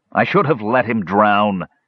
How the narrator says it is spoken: He shouted

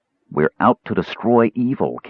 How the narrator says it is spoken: Caramon said evenly

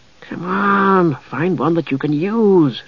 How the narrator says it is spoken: Tasselhoff muttered

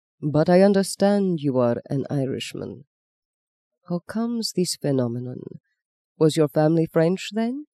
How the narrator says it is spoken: said the Archbishop Papal Legate softly

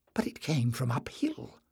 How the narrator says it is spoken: whispered Jasmine excitedly

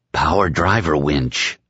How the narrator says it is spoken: his mind whispered

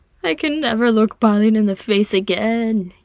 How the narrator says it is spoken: he moaned

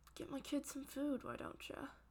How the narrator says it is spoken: James finally mutters

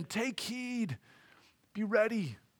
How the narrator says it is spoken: he's pleading with them

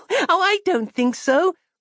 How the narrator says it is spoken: laughed Christabel

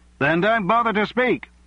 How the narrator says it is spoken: someone shouted from the Labour benches

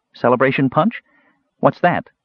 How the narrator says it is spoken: Catherine asked

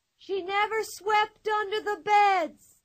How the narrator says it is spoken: Pippi from far off, yelling at the top of her lungs

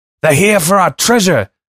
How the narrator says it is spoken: I yelled

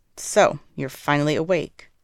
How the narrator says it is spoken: the woman says dryly

